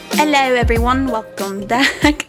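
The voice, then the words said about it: Odd put-on accent. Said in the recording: “I don't know what that accent was”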